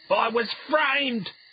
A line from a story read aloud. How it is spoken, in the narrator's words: he screamed